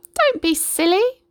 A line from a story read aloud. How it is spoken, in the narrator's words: cackled the chicken